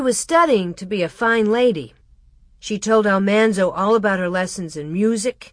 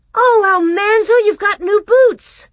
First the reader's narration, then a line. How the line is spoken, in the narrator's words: she cried